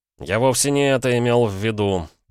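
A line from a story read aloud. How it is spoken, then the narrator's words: Groaning. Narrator (Russian): простонал Пол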